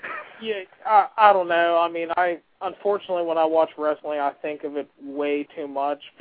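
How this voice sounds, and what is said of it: Western Pennsylvania accent. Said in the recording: “great Western Pennsylvania accent”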